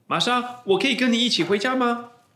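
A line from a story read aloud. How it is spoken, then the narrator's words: Embarrassed call. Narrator (Chinese): 保罗不好意思地叫着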